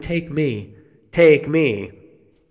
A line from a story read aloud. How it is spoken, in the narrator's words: she's screaming